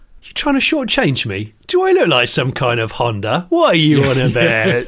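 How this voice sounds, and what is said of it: Put-on Cockney accent. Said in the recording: “Anything can be said in a Cockney accent, and it either sounds insulting or some kind of honorific”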